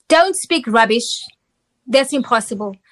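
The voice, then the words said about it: Thick accent imitating mother. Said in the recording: “in her thick accent”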